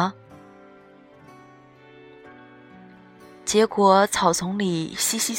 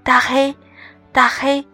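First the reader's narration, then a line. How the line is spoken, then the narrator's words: Tentative calling. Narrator (Chinese): 我尝试着喊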